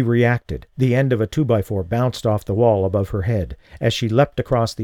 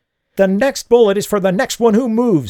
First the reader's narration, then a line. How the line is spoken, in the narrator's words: she screamed